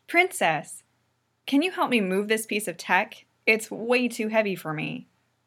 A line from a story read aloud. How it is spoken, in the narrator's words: Pidge turns to Allura and says loudly